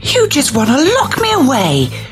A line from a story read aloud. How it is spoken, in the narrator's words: she shrieked